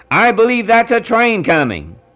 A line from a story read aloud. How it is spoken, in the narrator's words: cried